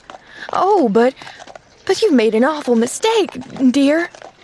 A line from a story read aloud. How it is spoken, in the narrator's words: she faltered